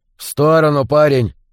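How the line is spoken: Grim. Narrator (Russian): мрачно сказал Эрц

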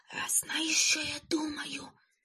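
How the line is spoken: Whisper. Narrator (Ukrainian): прошепотів Карлсон

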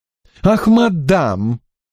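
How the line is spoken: Exclaimed. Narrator (Russian): воскликнул Дроллайт

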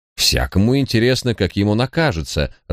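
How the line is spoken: Measured, reasoning tone. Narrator (Russian): рассудительным тоном ответил клерк

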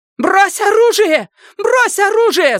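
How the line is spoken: Scream. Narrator (Russian): завопила Венди

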